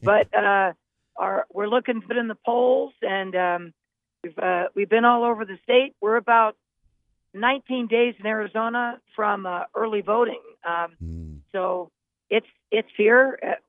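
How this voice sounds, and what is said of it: Slightly hoarse voice. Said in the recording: “my voice is a little hoarse today because I've been talking so much”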